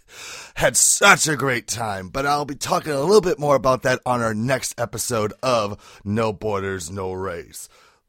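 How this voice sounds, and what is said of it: Hoarse, nearly lost voice. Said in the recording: “as you can probably tell, my voice is almost shot to shit”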